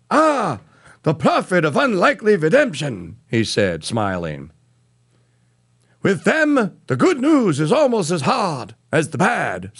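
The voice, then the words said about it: Imitated rabbi voice, done badly. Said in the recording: “bad rabbi impersonation”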